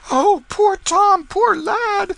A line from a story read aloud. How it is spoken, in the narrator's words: They with woe and dismay in their faces, exclaiming